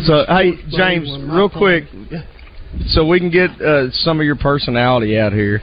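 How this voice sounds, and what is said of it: Strong regional accent. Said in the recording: “he's faking that accent. ... I wouldn't fake this accent”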